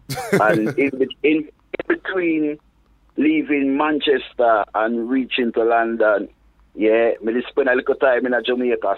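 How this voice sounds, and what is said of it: Mixed Manchester, London and Jamaican accent. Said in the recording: “the whole of my accent get completely mashed up”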